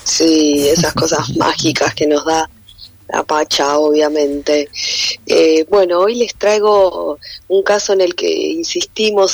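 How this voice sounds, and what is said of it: Deep, rough, sick-sounding voice. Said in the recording (Spanish): “Perdón esta voz de ultratumba, pero estoy con una faringitis aguda.”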